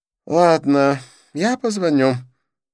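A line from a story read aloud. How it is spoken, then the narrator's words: Sigh. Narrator (Russian): вздохнул Дидье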